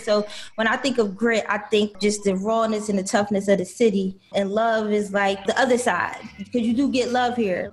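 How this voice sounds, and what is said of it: Philadelphia accent. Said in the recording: “the Philly accent that resonates in you is like nobody else ... You sound like Philly.”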